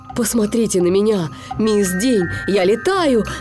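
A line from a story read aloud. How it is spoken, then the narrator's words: Overjoyed shouting. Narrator (Russian): закричал СМИ вне себя от радости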